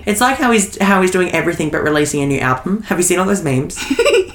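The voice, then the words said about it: Australian accent. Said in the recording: “we're Australian, if you haven't guessed it by our accent.”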